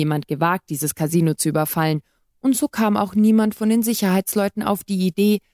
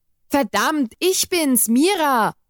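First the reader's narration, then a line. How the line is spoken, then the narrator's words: Called after someone. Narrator (German): rief hinterher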